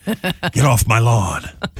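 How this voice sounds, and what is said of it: Clint Eastwood impression. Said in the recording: “Clint Eastwood, 92 today. ... do an impression of me”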